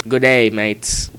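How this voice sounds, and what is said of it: Put-on accent. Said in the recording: “If you tell me not to do the accent, I'm going to do the accent.”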